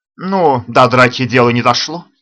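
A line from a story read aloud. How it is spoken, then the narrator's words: Snapping retort. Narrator (Russian): огрызнулся он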